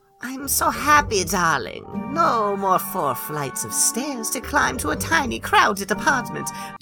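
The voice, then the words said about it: Odd unplaceable accent. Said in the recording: “She's got a weird accent, too, now. I don't know where that came from. ... She had a weird accent the last bit.”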